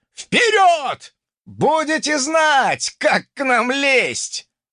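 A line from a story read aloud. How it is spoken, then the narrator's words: Yelled reply. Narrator (Russian): завопил в ответ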